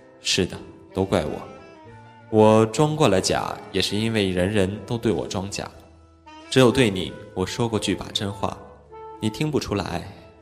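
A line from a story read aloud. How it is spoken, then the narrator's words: Sighing. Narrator (Chinese): 他叹道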